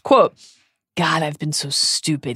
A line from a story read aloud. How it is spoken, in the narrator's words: he said quietly